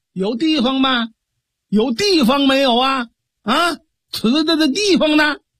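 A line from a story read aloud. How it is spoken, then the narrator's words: Repeated shouting. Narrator (Chinese): 喊了这么几嗓子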